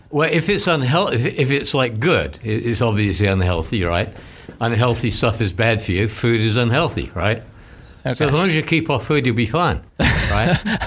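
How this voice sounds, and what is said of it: Australian English accent. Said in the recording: “As you detect, this is not a Brooklyn accent... When I came from Australia many years ago”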